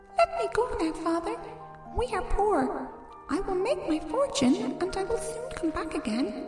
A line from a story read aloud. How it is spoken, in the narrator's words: whispered in his ear